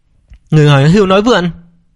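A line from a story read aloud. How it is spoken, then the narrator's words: Angry shout. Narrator (Vietnamese): Phan Ngọc Lan tức giận hét lên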